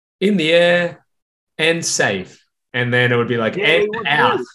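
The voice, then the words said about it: English sports commentator impression. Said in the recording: “Was it you doing the commentary? Because that's spot on. ... Great English accent.”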